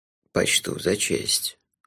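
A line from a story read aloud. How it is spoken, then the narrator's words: Solemn. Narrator (Russian): торжественно кивнул Лонли Локли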